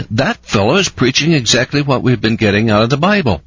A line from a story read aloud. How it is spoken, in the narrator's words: exclaimed